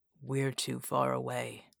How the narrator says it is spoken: he whispered

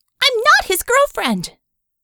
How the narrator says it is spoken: Vicky yelped, her voice shrill and chihuahua-like

